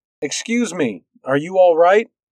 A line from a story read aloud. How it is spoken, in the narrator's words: said loudly